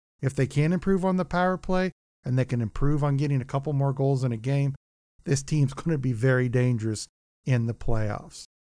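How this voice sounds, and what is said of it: Slightly off, sick-sounding voice. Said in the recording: “my voice sounds a little off. I've been sick lately.”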